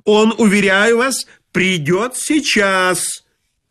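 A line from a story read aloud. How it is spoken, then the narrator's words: Yelling at top of lungs. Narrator (Russian): Заорал во все горло, желая дать знать за кулисы о беспорядке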